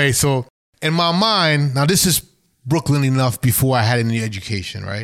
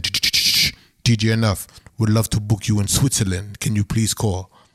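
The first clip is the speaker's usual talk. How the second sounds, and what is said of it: Put-on foreign accent. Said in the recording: “I don't know why I have this stupid accent”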